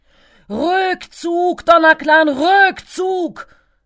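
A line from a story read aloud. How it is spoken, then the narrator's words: Shouted. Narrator (German): schrie er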